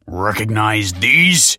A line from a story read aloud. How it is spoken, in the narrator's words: yelled the man